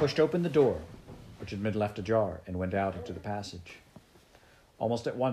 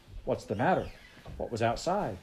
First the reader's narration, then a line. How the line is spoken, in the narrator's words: Sebastian asked anxiously